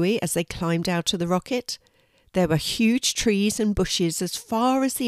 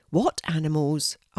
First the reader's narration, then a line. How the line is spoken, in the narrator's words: asked Louis, looking around a little anxiously